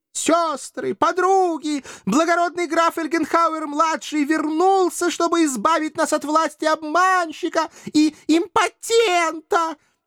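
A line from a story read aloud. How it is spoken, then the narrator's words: Hysterical ecstatic yelling woman. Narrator (Russian): Истерически орала, едва ли не захлебываясь от восторга, какая-то кудрявая грудастая девица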